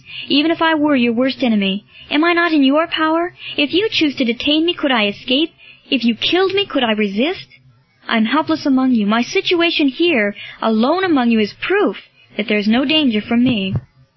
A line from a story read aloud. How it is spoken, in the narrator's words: cried Marcellus